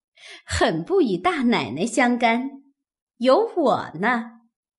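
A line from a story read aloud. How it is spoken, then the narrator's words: Laughing. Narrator (Chinese): 鸳鸯笑道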